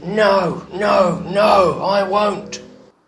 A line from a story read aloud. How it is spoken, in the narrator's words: the child screamed